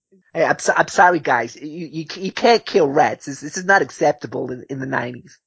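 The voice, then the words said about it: Woody Allen impression. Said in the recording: “in a Woody Allen voice”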